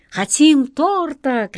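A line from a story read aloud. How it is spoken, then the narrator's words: Children shouting. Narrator (Russian): кричали дети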